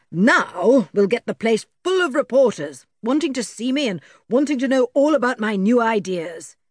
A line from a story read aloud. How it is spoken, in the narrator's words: said, beginning to shout